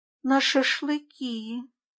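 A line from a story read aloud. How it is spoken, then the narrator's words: Quiet, downcast. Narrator (Russian): тихо сказала Катя, опуская голову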